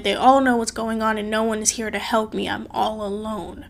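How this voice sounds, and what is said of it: Emotional, tearful voice. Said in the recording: “I'm getting a little emotional.”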